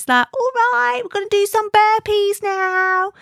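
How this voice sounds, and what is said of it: Put-on Mockney accent. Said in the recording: “this like Mockney accent”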